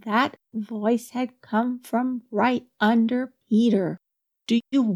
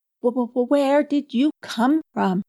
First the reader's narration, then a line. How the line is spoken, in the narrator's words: he stammered at last